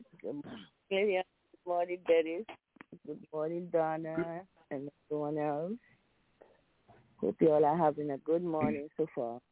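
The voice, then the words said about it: Deep baritone, under-the-weather voice. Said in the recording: “sound like you're a bit under the weather here... your voice has gone baritone... It's my baritone sexy voice”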